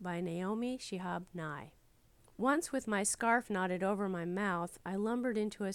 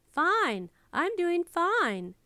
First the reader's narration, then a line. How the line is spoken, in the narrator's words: in the sunniest voice he could muster